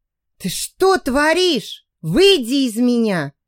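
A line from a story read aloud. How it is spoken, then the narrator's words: Hissing while struggling. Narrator (Russian): зашипела я, пытаясь вырваться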